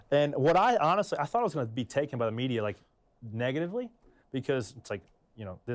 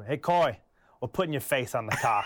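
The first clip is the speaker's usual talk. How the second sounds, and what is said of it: Thick Maine accent. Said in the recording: “real thick Maine accent”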